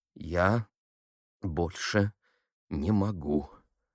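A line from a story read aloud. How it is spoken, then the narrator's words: Very slow, holding back tears. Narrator (Russian): Катя сказала медленно-медленно, так, чтобы не помешали слезы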